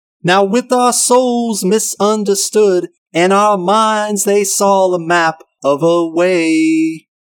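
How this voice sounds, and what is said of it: Singing in falsetto. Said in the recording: “singing with his orally pleasing falsetto voice”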